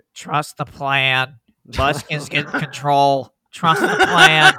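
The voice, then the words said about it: Nasal imitation of another person's voice. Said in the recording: “my Tommy impression ... Very nasally. ... That's what he sounds like right now.”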